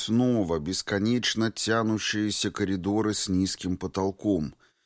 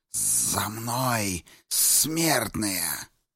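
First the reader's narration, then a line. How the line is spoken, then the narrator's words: Hissing. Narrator (Russian): Шепсута прошипела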